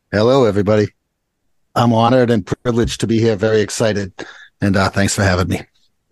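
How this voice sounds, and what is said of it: Boston accent. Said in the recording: “Make sure you bring that Boston accent ... I can't help but bring that Boston accent ... listen to this guy's accent.”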